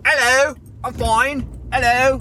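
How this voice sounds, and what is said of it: Fake British accent. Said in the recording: “I don't know why I'm doing the British accent ... my fake Evan doing a British accent ... that's me doing an impression of Evan”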